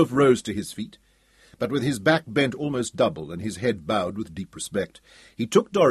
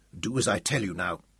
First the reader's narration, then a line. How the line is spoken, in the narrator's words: he whispered ferociously, trying to cover his own fear